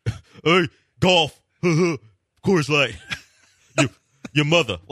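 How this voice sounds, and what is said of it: Poor impression of a co-host. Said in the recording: “Okay, you do your impression of me. ... I don't talk like that, first of all. And secondly, that's not a good impression of me at all. Not even in the least.”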